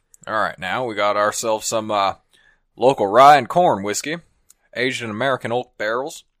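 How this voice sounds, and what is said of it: Cowboy voice. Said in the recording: “Can you do a cowboy voice?... Do a cowboy thing.”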